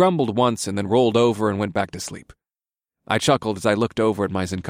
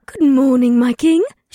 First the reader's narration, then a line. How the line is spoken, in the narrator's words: she said in a bright voice